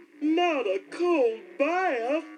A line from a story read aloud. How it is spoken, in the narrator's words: the old cow moaned